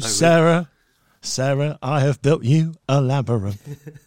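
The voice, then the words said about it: Poor impression of a singer's voice. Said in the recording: “you really can't do a David Bowie voice. You talk like Miss David Bowie.”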